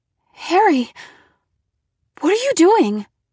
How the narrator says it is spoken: I cried

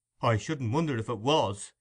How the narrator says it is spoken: exclaimed Brittles, catching at the idea

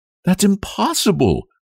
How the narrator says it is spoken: cried Nellie

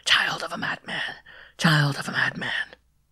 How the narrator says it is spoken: a voice seemed to hiss in my ears

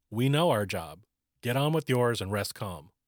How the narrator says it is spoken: he was told firmly

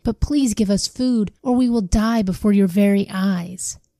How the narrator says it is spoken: they cried

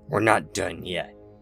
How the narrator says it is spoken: snarled the large leader

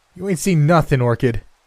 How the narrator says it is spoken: I yelled out far more arrogantly than I had a right to be

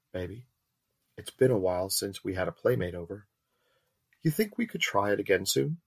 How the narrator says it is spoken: that teasing, mock pleading tone from her

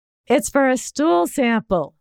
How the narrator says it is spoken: said loudly

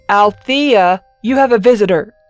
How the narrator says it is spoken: he yelled over his shoulder

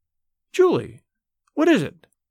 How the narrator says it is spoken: Her voice rose, keen with terror

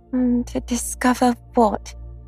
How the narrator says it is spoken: said Piglet anxiously

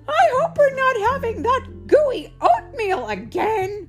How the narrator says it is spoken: screamed Mama

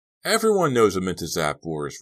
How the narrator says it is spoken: Ricky said heatedly, shouting in Suki's face

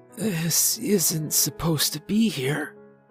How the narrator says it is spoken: Charlie whispered

